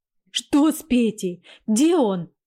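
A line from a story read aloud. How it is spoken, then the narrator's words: Cried out. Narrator (Russian): вскрикнула женщина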